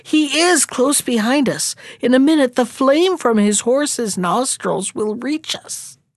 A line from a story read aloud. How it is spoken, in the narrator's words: The prince exclaimed